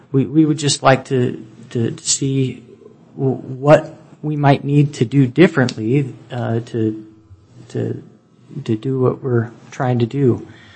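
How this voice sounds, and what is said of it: Stuttering, nervous-sounding speech. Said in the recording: “I'm stuttering quite a bit. I'm a little bit nervous”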